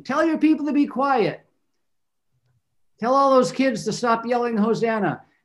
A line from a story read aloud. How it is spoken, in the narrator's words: people who were yelling at Jesus, not with him, but yelling at him, saying